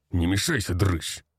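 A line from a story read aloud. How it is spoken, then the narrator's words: Gruff snarl. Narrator (Russian): рыкнул он на меня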